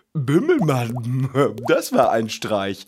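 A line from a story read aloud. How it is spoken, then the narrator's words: Fish laughing. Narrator (German): lacht der Fisch beim Gehen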